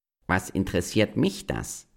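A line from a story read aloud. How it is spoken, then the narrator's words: Plain. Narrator (German): sagte die Katze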